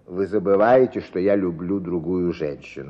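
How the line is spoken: Plain. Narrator (Russian): ответил Белокуров

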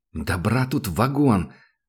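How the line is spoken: Mutter. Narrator (Russian): пробормотал Сашка

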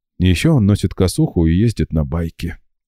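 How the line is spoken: Sighing. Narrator (Russian): вздохнула Марина

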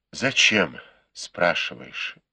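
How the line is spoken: Sighing. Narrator (Russian): вздохнул Бао Юй

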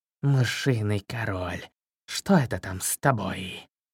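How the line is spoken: Snake's hiss. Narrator (Russian): прошипел черный змей

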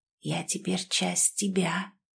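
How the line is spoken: Inner alien whisper. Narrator (Russian): прошептал внутри нее посторонний голос

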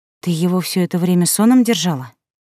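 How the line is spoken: Hissing. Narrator (Russian): зашипела я

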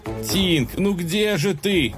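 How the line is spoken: Desperate shout. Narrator (Russian): в отчаянии закричал

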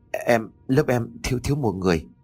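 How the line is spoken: Trembling, hesitant reply. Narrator (Vietnamese): Run rẩy một lúc cô mới đáp

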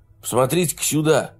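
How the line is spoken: Exclaiming. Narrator (Russian): воскликнул Маки

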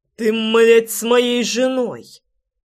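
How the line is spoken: Growl. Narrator (Russian): прорычал

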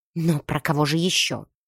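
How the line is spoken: Near hiss. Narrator (Russian): Госпожа Датрити едва не шипела

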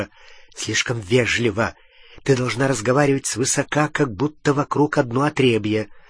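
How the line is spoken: Whispered into ear. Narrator (Russian): Гарри зашептал ей в ухо

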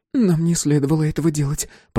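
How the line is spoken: Timid babbling. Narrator (Russian): пролепетала Эмми

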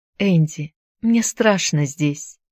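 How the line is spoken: Trembling voice. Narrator (Russian): дрогнувшим голосом произнесла она

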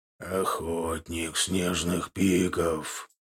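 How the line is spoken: Low guttural growling speech. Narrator (Russian): произнес он тихо, утробно смешивая слова с грозными, нетерпеливыми рыками

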